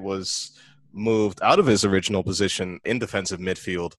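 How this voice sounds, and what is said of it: Put-on English accent. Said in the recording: “Can you speak in that English accent more often on this podcast?”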